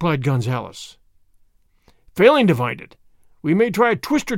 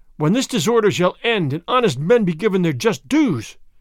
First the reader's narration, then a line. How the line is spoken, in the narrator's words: Frey Felipe cried